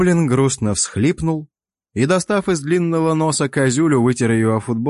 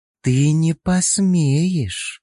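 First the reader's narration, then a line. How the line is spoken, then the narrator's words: Hissing elf woman. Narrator (Russian): шипение эльфийки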